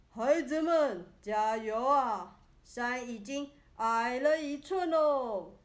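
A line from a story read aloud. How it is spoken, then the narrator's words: Tired, hoarse, loud comforting. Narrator (Chinese): 愚公搬石头搬累了 用沙哑的嗓子大声安慰大家说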